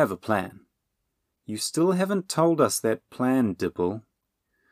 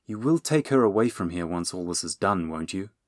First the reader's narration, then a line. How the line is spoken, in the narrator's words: Will muttered